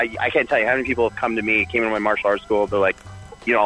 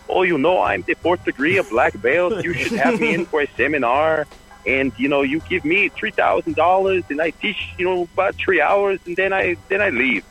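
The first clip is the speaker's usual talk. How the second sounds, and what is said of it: Put-on Brazilian accent. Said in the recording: “I'll do my Brazilian accent.”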